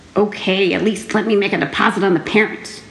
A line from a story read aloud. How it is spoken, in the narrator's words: Bongo grumbled